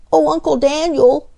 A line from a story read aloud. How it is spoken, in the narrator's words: exclaimed Freddie